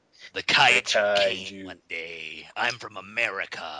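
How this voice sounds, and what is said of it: Exaggerated, over-the-top American accent. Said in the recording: “his American accent is totally over the top... he's a British actor who apparently doesn't do an American accent so great”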